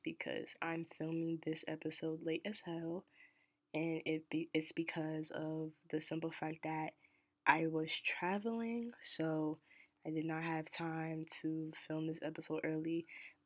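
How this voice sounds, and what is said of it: Quiet, hushed voice. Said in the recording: “I'm talking in a little quiet voice”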